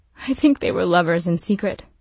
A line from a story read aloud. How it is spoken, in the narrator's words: Juliet blurted out